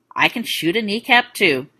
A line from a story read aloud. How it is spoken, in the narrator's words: she said dryly